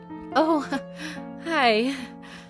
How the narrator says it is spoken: the woman said nervously

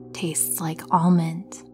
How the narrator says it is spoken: she whispered

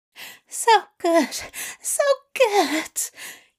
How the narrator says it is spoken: he gasped incomprehensibly

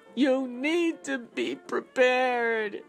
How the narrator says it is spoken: she yells

